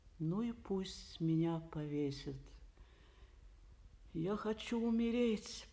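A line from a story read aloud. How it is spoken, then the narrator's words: Moaning woman. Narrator (Russian): простонала Эйлин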